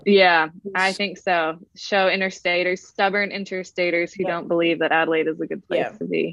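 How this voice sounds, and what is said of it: American-sounding accent. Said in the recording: “listening to your accent, a lot of people would assume you're another one of these young American imports ... I guess I am a bit American as well ... I just can't shake the accent”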